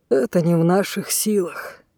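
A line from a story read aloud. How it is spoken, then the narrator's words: Quiet reply. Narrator (Russian): негромко отозвался Александр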